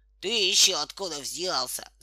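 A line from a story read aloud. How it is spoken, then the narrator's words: Boy laughing loudly. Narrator (Russian): захохотал мальчишка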